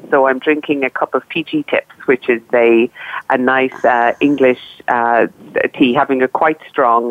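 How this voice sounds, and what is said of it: Voice sounds like a cold. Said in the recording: “as you may hear from my voice, I have a little bit of a cold.”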